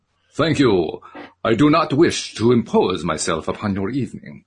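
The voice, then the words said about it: Heavy Eastern European-style accent. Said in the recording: “The voice was heavily accented, not quite Russian, nor Czech, nor more Transylvanians ... forgive me for my accent here, because I never do accents well”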